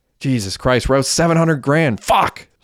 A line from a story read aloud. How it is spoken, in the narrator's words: screamed Hecky